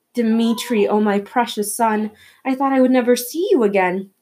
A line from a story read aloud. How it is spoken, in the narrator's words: she cried, tears of joy, her small bony shoulders shaking